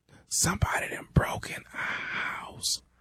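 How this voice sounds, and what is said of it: Whispering, very quiet voice. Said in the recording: “Man, speak up. I can't hear you. ... why the hell you whispering?”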